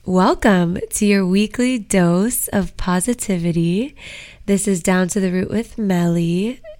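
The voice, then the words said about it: Slightly strained, losing voice. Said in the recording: “I seem to be losing my voice a little, so if my voice sounds a little different today”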